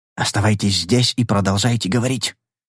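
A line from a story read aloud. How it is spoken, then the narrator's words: Whisper. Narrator (Russian): шепнул я генералу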